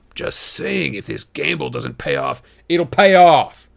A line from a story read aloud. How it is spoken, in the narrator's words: Luke snapped